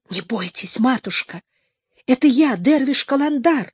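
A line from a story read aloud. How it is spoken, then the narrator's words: Distant whisper. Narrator (Russian): донесся шепот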